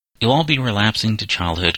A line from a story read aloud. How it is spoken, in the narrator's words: cried Cyril